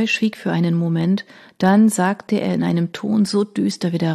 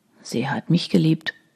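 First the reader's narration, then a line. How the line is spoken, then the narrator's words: Murmured. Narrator (German): murmelte Troy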